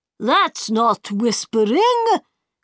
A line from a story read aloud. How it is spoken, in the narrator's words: cried the White King